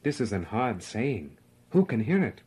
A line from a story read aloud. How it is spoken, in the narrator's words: They go away offended, murmuring